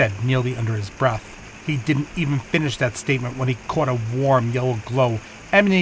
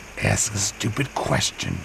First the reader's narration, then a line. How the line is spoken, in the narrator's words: he muttered to himself